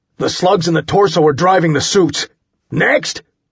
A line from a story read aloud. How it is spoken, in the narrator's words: I shouted